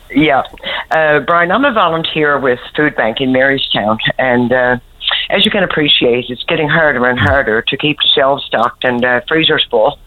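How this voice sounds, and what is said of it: Sick, affected voice. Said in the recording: “Excuse my voice, but I have a dirty old cold.”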